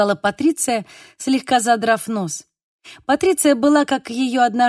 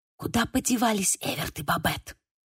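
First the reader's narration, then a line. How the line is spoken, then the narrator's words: Whispering in ear. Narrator (Russian): прошептала Ханнеки мне на ухо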